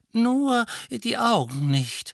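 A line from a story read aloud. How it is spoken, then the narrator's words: Old wizard's whistling voice. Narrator (German): sagte ein silberhaariger Zauberer mit pfeifender Stimme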